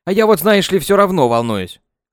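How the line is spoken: Grunting remark. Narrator (Russian): хмыкнул Ванятка

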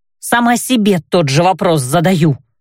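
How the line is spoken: Snapping. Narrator (Russian): огрызнулась я

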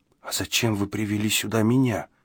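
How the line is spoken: Timid question. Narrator (Russian): робко поинтересовался

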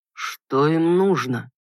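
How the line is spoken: Muffled, hollow voice. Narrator (Russian): глухо проговорил Бойд

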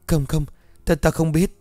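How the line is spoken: Panicked, trembling. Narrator (Vietnamese): run rẩy, vội vàng lùi về đằng sau nói trong hoảng hốt

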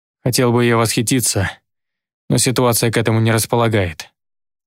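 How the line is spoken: Gloomy. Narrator (Russian): ответил мрачно

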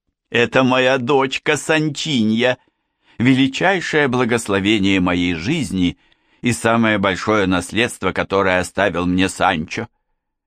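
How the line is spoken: Shouted. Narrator (Russian): Донья Тереса закричала

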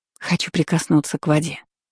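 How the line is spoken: Whispered, gathering courage. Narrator (Russian): прошептала, собравшись с духом

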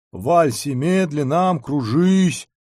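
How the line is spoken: Off-key singing. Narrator (Russian): запел помарка фальшивым голосом

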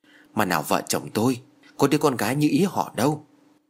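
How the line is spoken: Sigh. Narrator (Vietnamese): Ông giáo Thái thở dài

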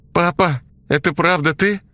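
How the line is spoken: Shouted out. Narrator (Russian): выкрикнула Ксюша

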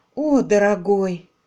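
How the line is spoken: Sighed. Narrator (Russian): вздохнула Полли

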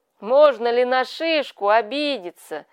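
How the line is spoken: Amused after hearty laughter. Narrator (Russian): спросил он себя, насмеявшись волю

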